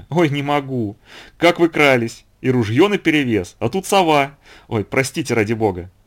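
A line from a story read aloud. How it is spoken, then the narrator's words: Laughing hard. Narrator (Russian): хохочущую Анну Семеновну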